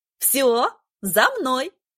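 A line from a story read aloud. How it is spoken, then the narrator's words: Cheerful command. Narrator (Russian): весело скомандовала она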